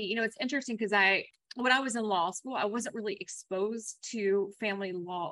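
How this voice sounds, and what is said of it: Slight Kentucky twang. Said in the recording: “I love your accent. I'm hearing the little Kentucky twang.”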